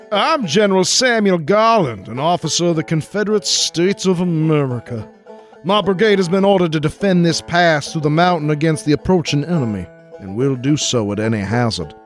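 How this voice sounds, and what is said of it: Exuberant put-on Virginia accent. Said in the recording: “speaking in an ebullient Virginia accent ... Ebullient Vaj accent”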